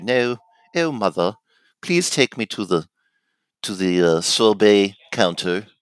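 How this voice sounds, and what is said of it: Put-on British accent. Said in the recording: “the British accent that I had when I was younger”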